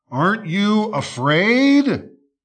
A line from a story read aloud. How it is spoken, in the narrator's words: snarled the wolf